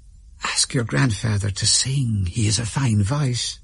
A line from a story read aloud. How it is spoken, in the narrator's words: father whispered in my ear